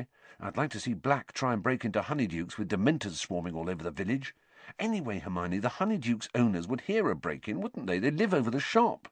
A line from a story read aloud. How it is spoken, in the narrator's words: said Ron quietly